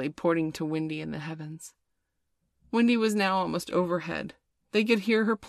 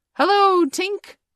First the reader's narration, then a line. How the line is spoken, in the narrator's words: cried the wandering boys